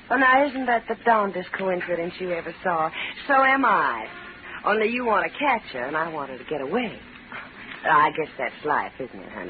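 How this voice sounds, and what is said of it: Southern American accent. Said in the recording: “a southern accent”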